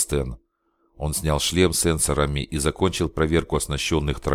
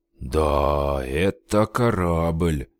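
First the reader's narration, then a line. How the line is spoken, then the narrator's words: Respectful drawl. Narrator (Russian): уважительно протянул Алекс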